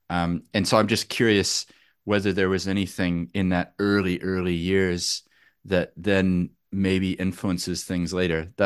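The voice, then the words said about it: American accent. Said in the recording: “I'm from America originally. I kept my accent”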